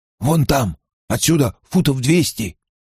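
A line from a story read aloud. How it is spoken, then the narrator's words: Whisper. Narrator (Russian): прошептал он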